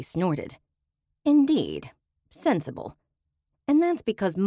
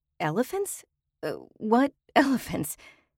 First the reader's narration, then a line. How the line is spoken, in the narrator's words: sputtering